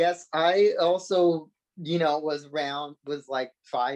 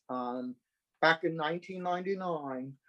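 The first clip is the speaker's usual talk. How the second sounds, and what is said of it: Quasi British accent. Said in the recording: “I said that with a quasi British accent”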